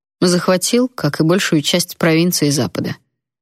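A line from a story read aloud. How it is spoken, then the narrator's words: Calm. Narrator (Russian): спокойно ответил Эйден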